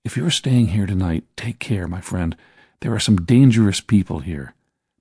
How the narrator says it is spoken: He spoke very softly to me, saying

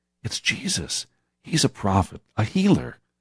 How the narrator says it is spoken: Through the crowd, whispers could be heard

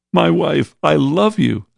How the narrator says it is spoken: said the young man who had been sobbing

